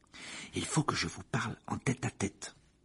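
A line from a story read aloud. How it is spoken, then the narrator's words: Murmured. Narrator (French): murmura Harry à Ron et à Hermione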